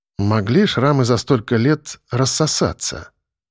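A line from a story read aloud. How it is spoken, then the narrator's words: Thoughtful. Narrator (Russian): задумчиво проговорил я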